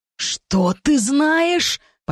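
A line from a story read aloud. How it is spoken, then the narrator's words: Near growl through gritted teeth. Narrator (Russian): Почти прорычал Дектон сквозь зубы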